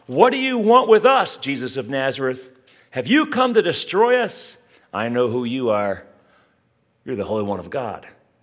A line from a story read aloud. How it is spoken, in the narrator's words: a man in their synagogue who was possessed by an impure spirit cried out